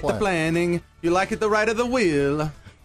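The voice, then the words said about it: Put-on Italian accent, Mario-style. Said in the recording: “My Italian accent is just Mario. It's let's go Mario Kart.”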